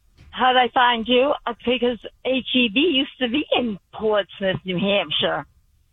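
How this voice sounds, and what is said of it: Strong noticeable regional accent. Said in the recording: “What an accent. I love it.”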